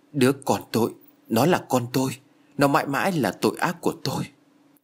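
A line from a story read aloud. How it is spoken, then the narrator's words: Trembling voice. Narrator (Vietnamese): với giọng run rẩy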